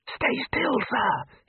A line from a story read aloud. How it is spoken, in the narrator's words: hissed Ponder